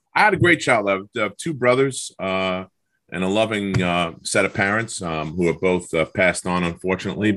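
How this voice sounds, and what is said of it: New York Long Island accent. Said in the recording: “I know from hearing your accent, you definitely grew up in New York. Long Island”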